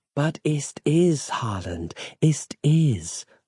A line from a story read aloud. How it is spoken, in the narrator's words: murmured Samantha in his ear